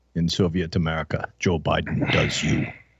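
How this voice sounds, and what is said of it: Bad put-on Russian accent. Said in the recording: “I can do a really bad Russian one. That is really bad.”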